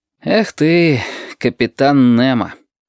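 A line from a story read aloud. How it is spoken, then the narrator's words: Sighing. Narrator (Russian): вздохнул он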